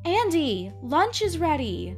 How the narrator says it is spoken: Mother called out the door

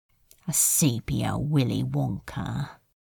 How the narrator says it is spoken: he muttered

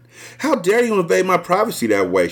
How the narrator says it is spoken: she spat

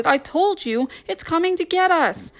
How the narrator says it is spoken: Rex shouted

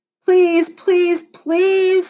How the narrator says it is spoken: begged

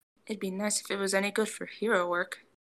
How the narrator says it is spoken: Izuku mutters

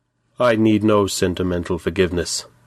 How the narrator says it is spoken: said coldly

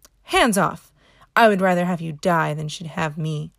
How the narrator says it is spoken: exclaiming

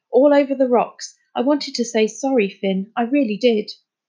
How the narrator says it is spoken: he said gruffly

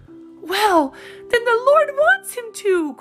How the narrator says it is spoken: cried Polly in rapture

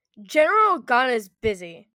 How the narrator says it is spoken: Lieutenant Lowe barked

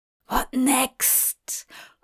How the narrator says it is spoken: Hop hissed at her

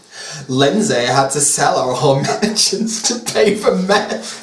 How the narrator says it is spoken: laughed Paris

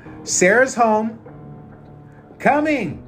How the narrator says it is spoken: Boston shouted

